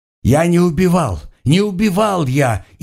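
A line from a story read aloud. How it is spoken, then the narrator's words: Frantic yelling. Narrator (Russian): орал обезумевший Блюр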